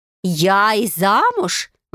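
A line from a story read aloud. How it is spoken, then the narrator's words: Exclaiming. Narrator (Russian): воскликнула Айка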